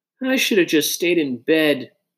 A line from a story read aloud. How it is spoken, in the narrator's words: Josh groaned